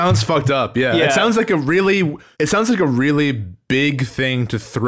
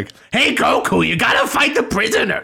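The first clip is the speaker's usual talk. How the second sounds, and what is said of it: Imitates a character's voice. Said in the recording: “my Pigma impression”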